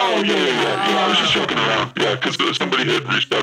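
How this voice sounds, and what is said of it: Usual voice. Nothing is said of it.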